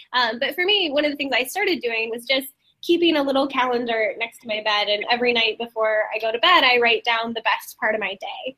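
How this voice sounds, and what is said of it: Slightly congested, sick-sounding voice. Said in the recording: “I've got a little bit of a cold”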